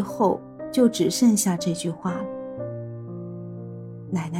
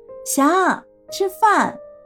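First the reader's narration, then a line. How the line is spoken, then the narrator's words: Elderly calling out. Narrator (Chinese): 奶奶……一吃饭就端着碗喊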